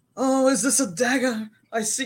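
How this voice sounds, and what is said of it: Mock British theatrical accent. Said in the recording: “talking British ... that British accent”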